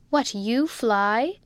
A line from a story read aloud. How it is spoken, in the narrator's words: said Rebecca with a laugh